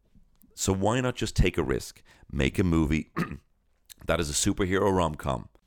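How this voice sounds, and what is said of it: Hoarse voice. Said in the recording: “you can hear my voice now. I'm actually going hoarse now.”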